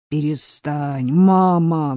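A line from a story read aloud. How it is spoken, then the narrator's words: Pleading cry. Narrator (Russian): взмолился Люк, боготворивший отца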